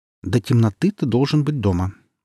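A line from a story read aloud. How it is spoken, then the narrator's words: Stern. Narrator (Russian): строго сказала мать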